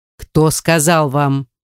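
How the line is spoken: Sterner repeated. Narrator (Russian): повторил он еще более суровым тоном

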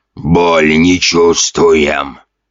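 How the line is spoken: Zombie's wheeze. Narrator (Russian): прохрипел один из зомби

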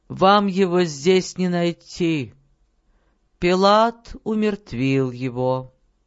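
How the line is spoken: Tired, indifferent. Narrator (Russian): Раб ответил им усталым и равнодушным тоном

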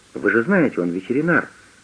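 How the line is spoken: Plain. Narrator (Russian): сказала Хоуп

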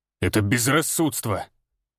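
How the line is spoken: Growl. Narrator (Russian): рыкнул он

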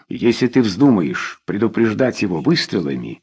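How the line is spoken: Plain. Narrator (Russian): сказал Рой

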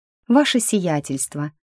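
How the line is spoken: Sighing. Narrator (Russian): вздохнула я

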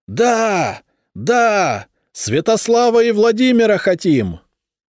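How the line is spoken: Crowd shouting. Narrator (Russian): они закричали

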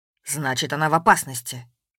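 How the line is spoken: Sharp. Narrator (Russian): резко сказал Воронцов

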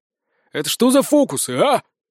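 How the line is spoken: Furious growl. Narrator (Russian): краснея от ярости прорычал шериф

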